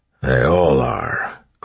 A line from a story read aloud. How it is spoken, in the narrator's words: Clubs muttered